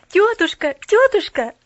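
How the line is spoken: Joyful babbling. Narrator (Russian): радостно залепетала она

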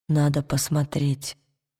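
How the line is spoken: Whisper. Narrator (Russian): шепнул Уилл

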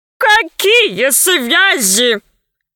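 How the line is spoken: Guffawing. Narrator (Russian): захохотал Громозека

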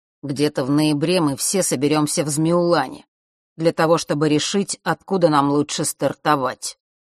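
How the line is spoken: Low voice. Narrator (Russian): начал своим низким голосом Рок

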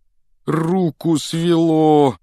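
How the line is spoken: Groaning. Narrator (Russian): простонал он

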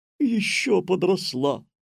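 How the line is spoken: Joyful. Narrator (Russian): радостно сказала госпожа Жадность

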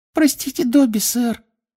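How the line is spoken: Guilty squeak. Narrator (Russian): виновато пискнул эльф

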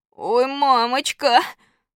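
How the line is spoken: Sobbing, deep breath. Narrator (Russian): Громко всхлипнув, Костя глубоко вздохнул и сказал

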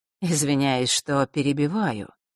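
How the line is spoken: Soft. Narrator (Russian): мягко начал он

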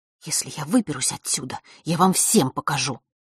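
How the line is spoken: Angry whisper. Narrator (Russian): гневно прошептала Василиса

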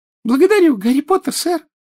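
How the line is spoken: Joyful squeak. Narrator (Russian): радостно пискнул Добби

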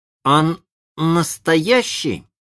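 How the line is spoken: Plain. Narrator (Russian): спросил он

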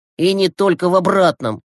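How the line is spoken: Snorting. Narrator (Russian): хмыкнул Глеб

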